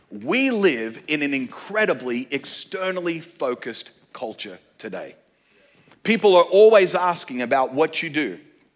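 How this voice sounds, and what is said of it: Australian accent with American influence. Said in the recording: “You've got a funky accent. It's kind of this mixed version of Australian with a bit of American sprinkled on top... the Russell Crowe version of the Australian accent”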